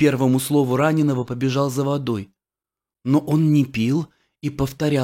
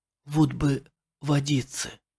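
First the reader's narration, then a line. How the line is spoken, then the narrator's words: Dying man's whisper. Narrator (Russian): один умирающий шептал мне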